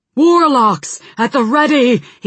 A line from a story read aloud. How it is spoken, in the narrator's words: he shouted